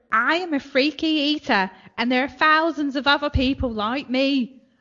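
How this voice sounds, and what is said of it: Put-on Leeds accent, common-sounding. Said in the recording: “I'll do the voice ... It's a lead accent ... you make her sound common and scummy”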